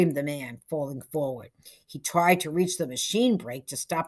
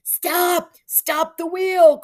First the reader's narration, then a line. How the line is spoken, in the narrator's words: cried Joseph Pikes